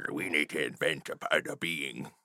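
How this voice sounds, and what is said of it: Space pirate character accent. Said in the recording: “Now I'm a space pirate from the future ... Accent, please. If you're going to do it. ... Oh, there you go.”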